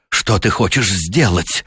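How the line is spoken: Hoarse whisper. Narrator (Russian): прошептал он хрипло

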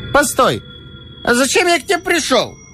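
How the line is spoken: Drunken hiccuping shout. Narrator (Russian): кричал Веткин, икая

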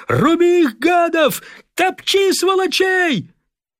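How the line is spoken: Shouted at full voice. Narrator (Russian): Иван Кривоногов, как будто желая помочь самолету, кричал во весь голос

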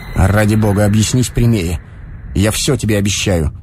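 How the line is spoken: Dry, suppressed irritation. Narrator (Russian): Стараясь скрыть непонятное глухое раздражение, он сказал сухо

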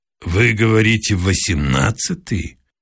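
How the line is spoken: Gloomy question. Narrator (Russian): мрачно переспросил я

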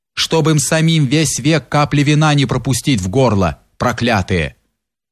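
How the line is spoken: Fairly firm voice. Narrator (Russian): Утолив несколько свой голод, Юрий сказал довольно твердым голосом

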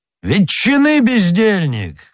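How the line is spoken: Angry shout. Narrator (Russian): крикнул он

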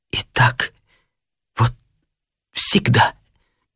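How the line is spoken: Tearful mumbling. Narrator (Russian): Бормотала она сквозь слезы

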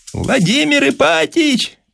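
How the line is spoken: Shouted from street. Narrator (Russian): прокричал голос в открытое окно кабинета с улицы Герцена

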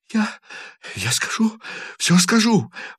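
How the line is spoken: Sobbing, hurried voice. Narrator (Russian): рыдающим голосом торопливо повторял лейтенант

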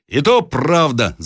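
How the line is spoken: Men shouting together. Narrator (Russian): закричали другие мужики

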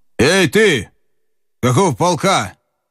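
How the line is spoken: Shout. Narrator (Russian): Бессонов крикнул

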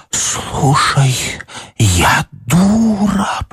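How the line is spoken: Muffled whisper. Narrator (Russian): прошептала Даша в ее грудь

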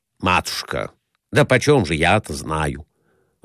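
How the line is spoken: Irritated. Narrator (Russian): раздраженно отвечал Николай Иванович

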